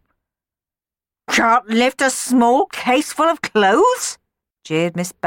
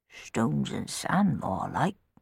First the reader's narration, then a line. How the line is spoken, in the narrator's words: grumbled Tom